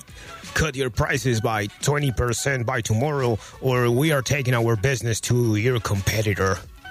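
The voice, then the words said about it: Angry impersonated client voice. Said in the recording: “They are angry, clearly, as you can tell from my impersonation of your client.”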